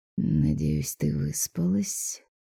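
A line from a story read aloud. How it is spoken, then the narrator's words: Drawling. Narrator (Russian): протянул он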